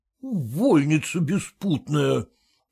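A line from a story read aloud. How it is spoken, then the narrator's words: Whisper through clenched teeth. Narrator (Russian): прошептал сквозь зубы Зваров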